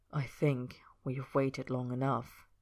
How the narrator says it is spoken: Roy said quietly

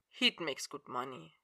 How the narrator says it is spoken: he said quietly

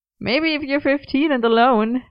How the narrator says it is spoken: Merlin laughed

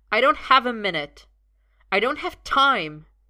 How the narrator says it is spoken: Merlin snaps

